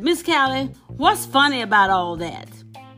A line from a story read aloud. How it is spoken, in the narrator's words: So I would say to her angrily